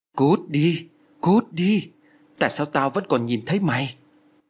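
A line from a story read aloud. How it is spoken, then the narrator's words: Terrified trembling shout. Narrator (Vietnamese): Lan lúc này đã thu mình vào trong một góc nhà, ôm đầu run rẩy miệng la lớn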